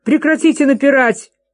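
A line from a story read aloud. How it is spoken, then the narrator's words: Shout. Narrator (Russian): закричал Джейми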